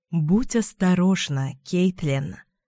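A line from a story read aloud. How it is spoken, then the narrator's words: Low-voiced warning. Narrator (Russian): предупреждаю я низким голосом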